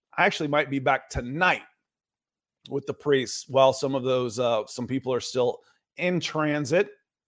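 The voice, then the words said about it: Strained, worn-out voice. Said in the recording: “my voice is about to go”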